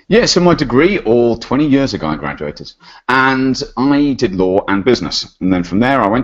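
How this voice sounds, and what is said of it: British accent. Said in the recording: “about to head back to the UK. You might notice a little bit of an accent.”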